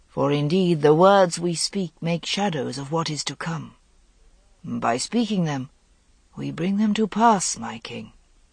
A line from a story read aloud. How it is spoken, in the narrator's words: said the Merlin very softly